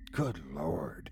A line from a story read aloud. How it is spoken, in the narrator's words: he whispered to himself